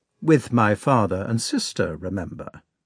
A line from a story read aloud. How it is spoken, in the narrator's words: said Prince Andrei gently